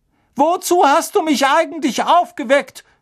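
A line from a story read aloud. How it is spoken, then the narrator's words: Gruff call after someone. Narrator (German): rief ihm die fette Dame unwirsch hinterher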